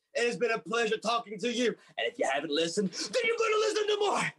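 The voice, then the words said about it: Barking drill sergeant voice. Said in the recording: “doing the drill sergeant voice”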